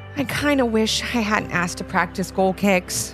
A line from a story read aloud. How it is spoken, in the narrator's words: mumbled Levi